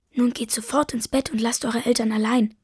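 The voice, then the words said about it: Whispered line. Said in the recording (German): “flüstert”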